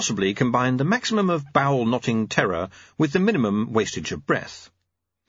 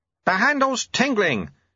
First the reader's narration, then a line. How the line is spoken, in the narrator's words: shouted Lutze